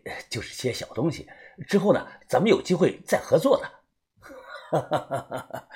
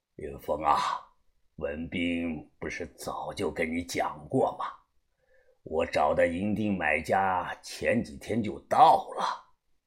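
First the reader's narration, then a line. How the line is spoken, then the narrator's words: Calm, detached. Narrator (Chinese): 把头他淡淡的说道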